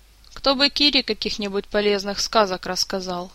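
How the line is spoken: Sighing. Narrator (Russian): снова вздохнул король

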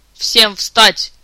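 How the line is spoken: Loud bark. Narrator (Russian): в полный голос рявкнул

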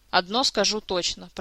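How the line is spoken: Grumbling. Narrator (Russian): проворчал проводник

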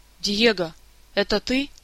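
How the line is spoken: Frightened young bird voice. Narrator (Russian): испуганно произнес говорящий птенец

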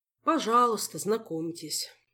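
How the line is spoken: Sighing. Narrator (Russian): вздохнул мэтр Истран

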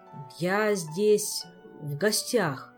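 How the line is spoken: Slow, hesitant, puzzled. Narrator (Russian): медленно подбирая слова, пояснил, недоумевая

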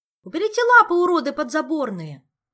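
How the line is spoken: Full-voiced yell. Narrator (Russian): уже в полный голос заорала Хатанг, чтобы в 4-й подворотне ее услышали

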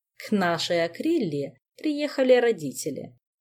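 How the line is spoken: Unruffled purr. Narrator (Russian): невозмутимо мурлыкнула Камилла

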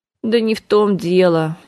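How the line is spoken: Bitter sigh. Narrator (Russian): еще горше вздохнула Саша

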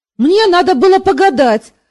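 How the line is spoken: Loud snapping girl. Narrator (Russian): огрызнулась дочурка точно так же на весь дом

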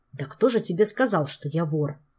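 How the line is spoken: Grumbled. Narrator (Russian): проворчал Жак

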